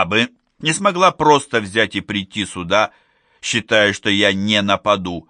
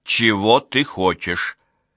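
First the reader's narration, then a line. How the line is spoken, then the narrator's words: Cold question. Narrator (Russian): спросила холодно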